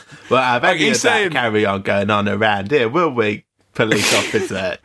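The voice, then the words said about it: Put-on exaggerated Cockney accent. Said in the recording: “I imagine a proper Cockney might be a little bit perturbed by it”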